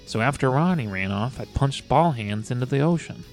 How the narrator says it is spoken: Maya sighed

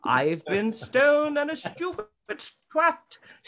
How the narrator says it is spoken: shouted Billy Bonds

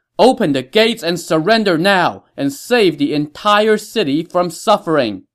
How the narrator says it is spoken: shout

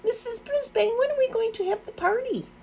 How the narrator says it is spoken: Heidi blurted out

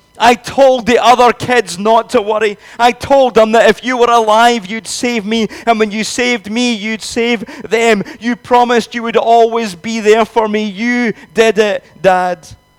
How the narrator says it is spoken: the child's voice, shouting even louder

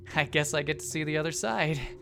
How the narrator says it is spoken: he said with a mixture of excitement and hysterical laughter

